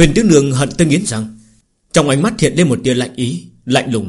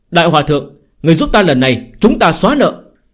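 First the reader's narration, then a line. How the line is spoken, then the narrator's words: Joyful exclamation. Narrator (Vietnamese): Phương Hành trong lòng mừng rỡ kêu lên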